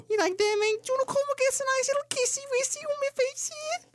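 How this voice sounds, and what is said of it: Mock Scouse accent. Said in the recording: “has a Scouse accent”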